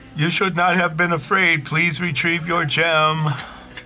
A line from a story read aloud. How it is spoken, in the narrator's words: yell out and say